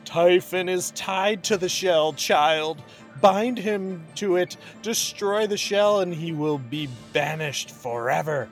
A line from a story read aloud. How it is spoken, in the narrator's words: As if feeling Glynis's freedom, Alcina shouted